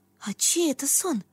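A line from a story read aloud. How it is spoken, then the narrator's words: Whisper. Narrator (Russian): шепнула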